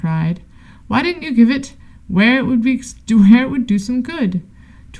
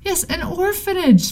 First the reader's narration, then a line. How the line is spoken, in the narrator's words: the policeman cried